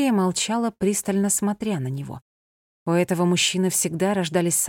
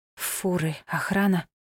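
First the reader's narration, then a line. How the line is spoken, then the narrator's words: Whisper. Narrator (Russian): прошептала она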